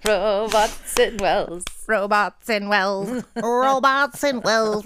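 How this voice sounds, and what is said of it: Robot voice. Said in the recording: “That's a great robot voice.”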